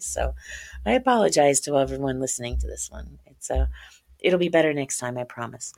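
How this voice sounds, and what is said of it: Crackly, rough voice. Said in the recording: “right now it's not my radio voice. Right now you're getting kind of a crackly version of my voice”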